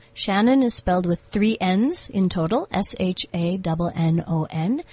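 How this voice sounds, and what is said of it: South African Zulu-region accent. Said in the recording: “I can hear from that interesting accent that you come from KwaZulu”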